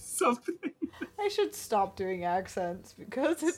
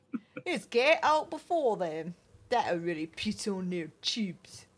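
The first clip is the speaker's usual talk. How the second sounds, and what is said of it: Poor put-on English accent. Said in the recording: “that's not a good accent ... we're sorry for our terrible English accents”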